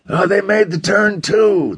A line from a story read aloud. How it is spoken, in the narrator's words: the dapper one shouted